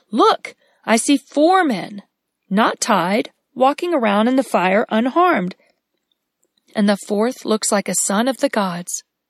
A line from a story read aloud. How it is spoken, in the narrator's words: He exclaimed